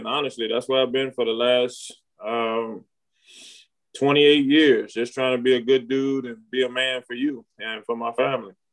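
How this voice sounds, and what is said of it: Emotional voice. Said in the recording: “I got emotional”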